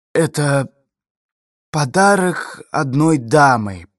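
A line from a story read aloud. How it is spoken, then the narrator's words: Hoarse wheeze. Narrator (Russian): прохрипел Эгин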